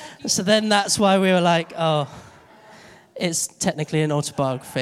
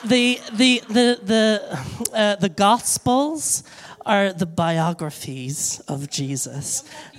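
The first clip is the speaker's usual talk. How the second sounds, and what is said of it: Imitated American accent. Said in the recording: “she's American ... she speaks with an American accent.”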